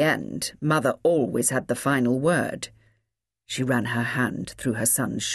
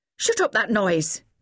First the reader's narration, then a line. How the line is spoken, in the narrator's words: snapped her mother